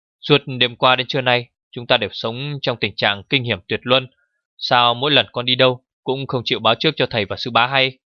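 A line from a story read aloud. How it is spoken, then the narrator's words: Angry shout. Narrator (Vietnamese): Tạ Đông Dương giận la lên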